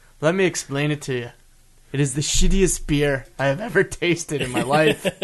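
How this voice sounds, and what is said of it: Pretty good put-on Irish accent. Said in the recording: “I'm sorry for doing an Irish accent with that. ... You're doing a pretty good Irish accent.”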